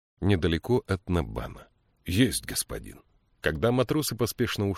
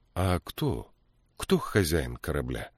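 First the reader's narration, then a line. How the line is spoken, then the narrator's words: Calm question. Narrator (Russian): спокойно спросила Мириамель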